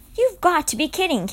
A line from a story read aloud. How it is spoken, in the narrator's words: Kate cried